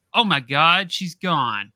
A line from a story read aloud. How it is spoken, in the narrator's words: My coworker then shouts